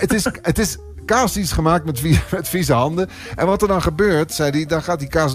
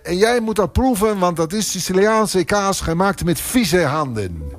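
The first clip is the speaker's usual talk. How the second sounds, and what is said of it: Put-on Italian accent. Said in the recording (Dutch): “ik ga nu even dat accent weglaten, anders word ik gek.”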